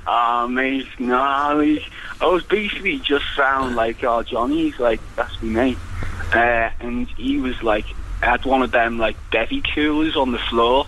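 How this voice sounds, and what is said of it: Liverpool accent. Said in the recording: “it sounds like you're from Liverpool. But maybe this is an Icelandic accent.”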